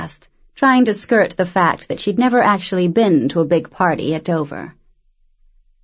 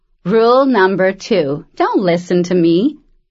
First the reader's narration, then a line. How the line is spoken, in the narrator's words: Arian laughed